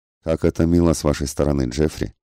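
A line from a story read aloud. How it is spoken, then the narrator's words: Plain. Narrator (Russian): сказала она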